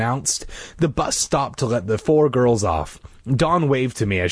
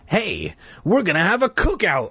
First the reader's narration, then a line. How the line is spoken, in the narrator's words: I exclaimed to Mike